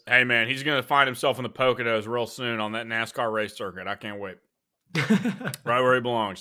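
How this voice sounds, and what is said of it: Southern American twang accent. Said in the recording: “your Southern accent ... you still got the Southern twang”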